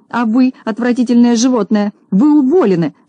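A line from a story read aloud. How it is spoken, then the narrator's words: Shouting. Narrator (Russian): закричала она, обратившись к Незнайке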